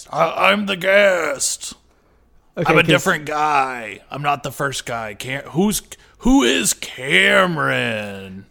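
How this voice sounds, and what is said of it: Put-on character voice. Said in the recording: “are you just doing a voice?”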